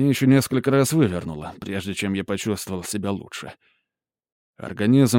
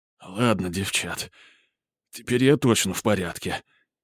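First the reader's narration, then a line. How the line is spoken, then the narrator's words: Hoarse, breathless. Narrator (Russian): все еще сиплым голосом изрек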